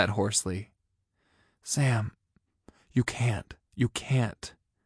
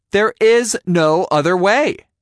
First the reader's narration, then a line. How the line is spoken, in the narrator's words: I shouted at him